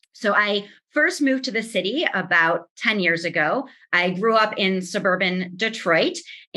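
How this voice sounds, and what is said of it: Northern Midwest American accent. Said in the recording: “her Northern Midwest accent”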